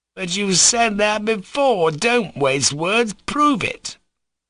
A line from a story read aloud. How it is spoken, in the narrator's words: cried Fyodor Pavlovich